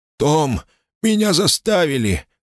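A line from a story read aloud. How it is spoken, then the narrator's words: Groaning. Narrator (Russian): простонал дядя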